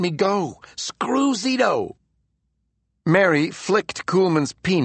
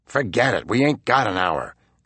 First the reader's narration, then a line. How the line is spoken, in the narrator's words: Zito muttered